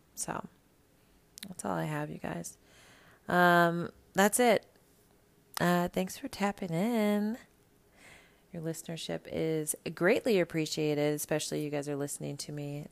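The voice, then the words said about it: Low, tired bedroom voice. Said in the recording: “This is my bedroom voice because I'm so fucking tired”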